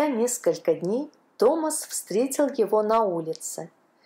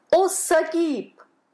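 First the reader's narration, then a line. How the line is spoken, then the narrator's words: Exclaimed. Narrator (Russian): воскликнул он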